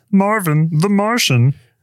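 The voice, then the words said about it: Marvin the Martian impression. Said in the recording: “That's a pretty good Marvin Martian.”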